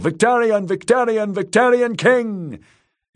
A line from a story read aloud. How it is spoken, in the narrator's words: Captains shouting